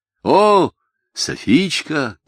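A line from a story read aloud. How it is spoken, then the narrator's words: Shout. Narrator (Russian): крикнул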